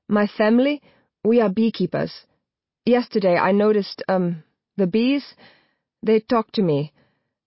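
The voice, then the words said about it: Slight German accent. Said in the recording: “When he speaks, it's with a slight German accent.”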